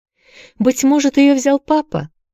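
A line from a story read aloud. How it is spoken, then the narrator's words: Said carelessly. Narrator (Russian): беспечно сказала Дженни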